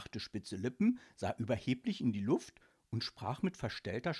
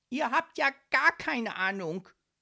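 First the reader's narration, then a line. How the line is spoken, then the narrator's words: Shouting. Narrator (German): schrie Leopold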